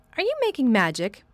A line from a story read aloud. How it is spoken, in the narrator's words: asked sharply